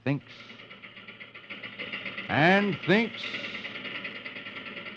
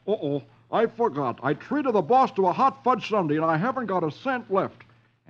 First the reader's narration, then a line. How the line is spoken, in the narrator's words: exclaims